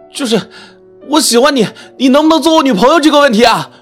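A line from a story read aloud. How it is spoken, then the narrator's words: Gritted-teeth shout. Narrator (Chinese): 我咬咬牙大喊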